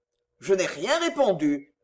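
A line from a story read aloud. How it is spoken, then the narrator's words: Offended tone. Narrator (French): fit le Juif d'un ton offensé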